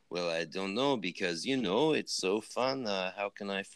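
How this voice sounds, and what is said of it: Poorly imitated Quebecois accent. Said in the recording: “I'm fucking up his accent, ... I love my Quebecois brethren and sisters”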